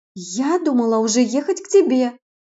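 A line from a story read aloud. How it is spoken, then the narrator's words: Distant exclamation. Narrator (Russian): воскликнула Светка с другой стороны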